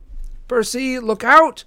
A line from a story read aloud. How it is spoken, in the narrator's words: Annabeth cried